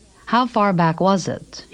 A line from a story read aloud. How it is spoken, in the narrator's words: he asked